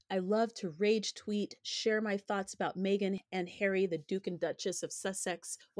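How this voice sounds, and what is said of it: Slightly hoarse voice. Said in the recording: “I'm still recovering from the COVID. So if I cough or sound a little hoarse, that's what's going on.”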